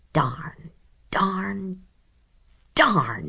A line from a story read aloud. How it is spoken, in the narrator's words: he muttered